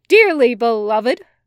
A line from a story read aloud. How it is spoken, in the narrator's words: he says loudly